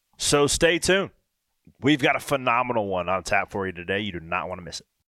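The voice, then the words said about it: Hoarse voice. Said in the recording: “reason why I am hoarse today recording this podcast, because I had a ball at Raw last night”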